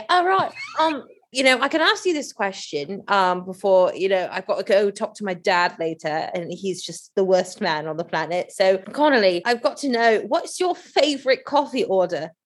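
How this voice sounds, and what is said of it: Put-on British accent. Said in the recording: “let me get my British accent back here”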